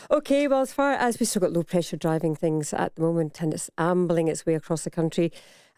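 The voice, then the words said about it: Strong Scottish accent. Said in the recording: “For those who don't understand ... accent, that's a shower.”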